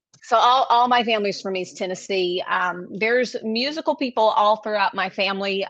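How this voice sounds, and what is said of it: East Tennessee country accent. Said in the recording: “I hear the accent. ... the more we talk, the more country I'm probably going to get”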